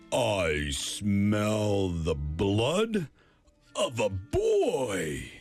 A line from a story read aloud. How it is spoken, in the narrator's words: the giant roared